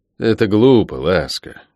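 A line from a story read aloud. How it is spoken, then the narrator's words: Sighing. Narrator (Russian): вздохнул я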